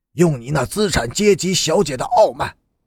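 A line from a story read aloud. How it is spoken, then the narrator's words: Low growl. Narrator (Chinese): 低声的吼道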